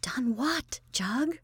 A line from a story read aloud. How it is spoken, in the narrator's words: Constantia, pale as a lemon in all that blackness, said in a frightened whisper